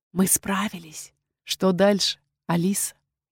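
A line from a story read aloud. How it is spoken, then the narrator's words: Quiet, confiding. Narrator (Russian): доверительно тихо сказал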